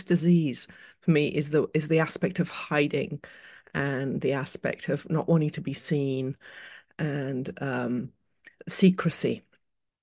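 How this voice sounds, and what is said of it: British accent with mixed influences. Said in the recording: “I'm British, as you with quite a lot of sprinkles of other things, as you can probably hear from my accent.”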